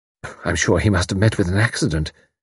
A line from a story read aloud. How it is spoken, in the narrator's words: sighed Mrs